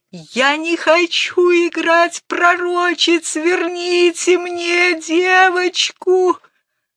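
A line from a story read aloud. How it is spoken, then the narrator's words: Hoarse sobbing. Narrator (Russian): Она хрипло зарыдала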